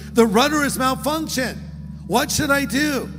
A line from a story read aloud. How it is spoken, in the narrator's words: the pilot radioed the control tower in panic and shouted